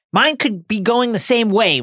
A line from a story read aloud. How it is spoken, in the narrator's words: Ron yells